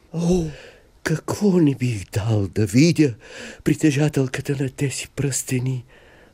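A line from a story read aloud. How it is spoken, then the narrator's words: Sighing. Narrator (Bulgarian): въздъхнал той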